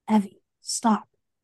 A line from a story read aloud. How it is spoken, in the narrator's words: he whispered